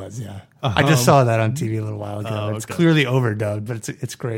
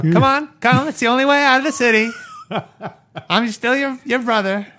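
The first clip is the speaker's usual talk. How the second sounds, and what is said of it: Imitates a movie character's voice. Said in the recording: “That was a good impression.”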